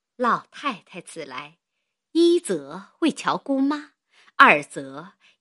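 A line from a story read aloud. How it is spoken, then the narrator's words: Ingratiating smiling tone. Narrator (Chinese): 向薛姨妈陪笑说道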